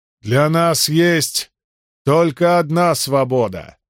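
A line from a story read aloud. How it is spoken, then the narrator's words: Shouting. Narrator (Russian): снова крикнул кто-то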